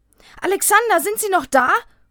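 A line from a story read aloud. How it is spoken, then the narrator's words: Calling from afar. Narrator (German): ruft Thomas schon von Weitem seinem Bruder zu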